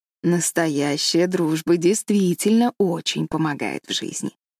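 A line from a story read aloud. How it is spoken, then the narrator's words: Plain. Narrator (Russian): сказала миссис Аллен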